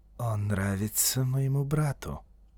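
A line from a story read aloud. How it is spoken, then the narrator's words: Soft. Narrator (Russian): мягко сказал индиец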